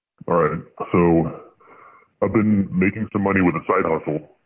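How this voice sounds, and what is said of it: Voice disguised by a voice changer. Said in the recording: “You don't sound quite as regal with a voice changer on ... Voice changer's on.”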